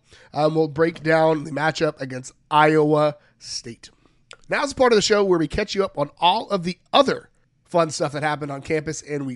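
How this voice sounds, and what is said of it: Voice sounds rough and unwell. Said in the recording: “Hopefully, my voice sounds a little bit better by then, but it probably won't.”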